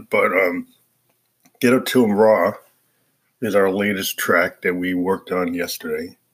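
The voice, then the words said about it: Congested voice from a cold. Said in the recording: “I got a cold, so my voice is a little different”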